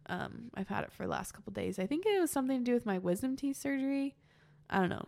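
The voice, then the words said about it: Congested, tired voice with a cold. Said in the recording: “as you can probably hear in my voice, I have a bit of a cold. ... my voice is kind of, I'm getting a little bit tired ... I get really stuffy at the end of the day”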